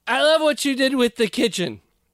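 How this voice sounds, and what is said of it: Drunk-sounding imitation of another person. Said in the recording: “your drunk Courtney Love impression.”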